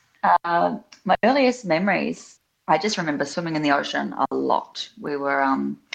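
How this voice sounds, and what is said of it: New Zealand accent. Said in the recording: “I grew up in New Zealand. Um, I have had a, some of my childhood in Australia as well. I just get less shtick for being a Kiwi. Um, so, I just tell everyone it's a posh accent, it comes out inadvertently.”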